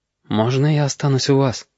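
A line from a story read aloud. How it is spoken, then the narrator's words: Quiet plea. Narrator (Russian): тихо попросил Галька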